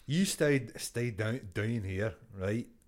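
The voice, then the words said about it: Attempted Scottish accent. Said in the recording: “I think I've got a very good Scottish accent ... Kevin Bridges ... Dunny was Indian or something ... my Scottish accent. It's gone Italian.”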